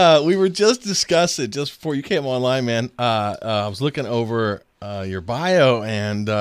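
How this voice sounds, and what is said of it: Usual voice. Nothing is said of it.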